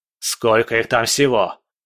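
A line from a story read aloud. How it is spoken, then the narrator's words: Barking. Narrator (Russian): рявкнул Бобшильд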